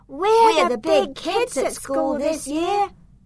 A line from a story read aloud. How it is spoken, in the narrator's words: they yelled as they saw me arrive